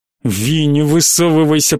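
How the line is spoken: Hissed. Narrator (Russian): прошипел

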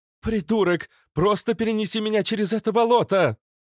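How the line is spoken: Indignant shout. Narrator (Russian): крикнула в негодовании Иштар

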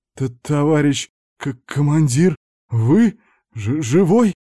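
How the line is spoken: Stunned hoarse rasp. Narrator (Russian): Ошарашенно прохрипел Аникеев

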